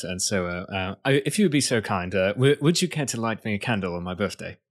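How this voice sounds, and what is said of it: Put-on British accent. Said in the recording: “I want to hear you say that line in a British accent ... I have to get myself into a British accent”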